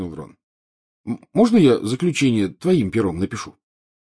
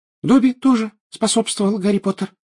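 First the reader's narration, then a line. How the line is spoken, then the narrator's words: Indignant squeak. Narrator (Russian): пропищал он, возмущенно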